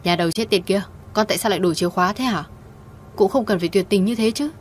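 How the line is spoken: Shouting over phone. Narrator (Vietnamese): đầu dây bên kia điện thoại, mẹ cô hét toáng lên

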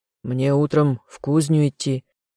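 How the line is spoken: Gruff grumble. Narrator (Russian): буркнул он

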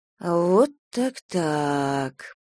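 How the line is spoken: Drawled. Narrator (Russian): протянула она

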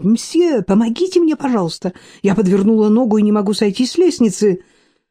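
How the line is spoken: Exclaiming. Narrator (Russian): воскликнуть

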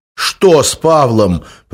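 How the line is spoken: Almost shouting. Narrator (Russian): почти выкрикнул он

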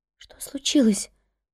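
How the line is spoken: Whisper. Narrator (Russian): прошептала Эмили

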